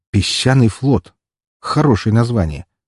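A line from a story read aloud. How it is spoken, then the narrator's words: Smirking grunt. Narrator (Russian): хмыкнул я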